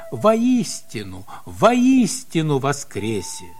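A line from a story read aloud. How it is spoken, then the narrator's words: Joyful. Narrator (Russian): тот радостно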